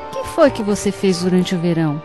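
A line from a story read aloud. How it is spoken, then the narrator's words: Unfriendly questioning tone. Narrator (Portuguese): perguntou em tom nada amistoso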